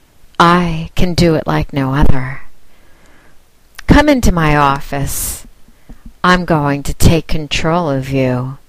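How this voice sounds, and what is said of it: Sexy seductive voice. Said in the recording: “You need my sexy voice”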